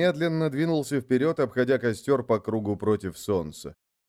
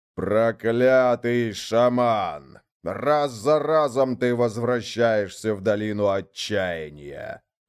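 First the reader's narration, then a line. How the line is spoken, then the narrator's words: Growled. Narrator (Russian): прорычал Ярлег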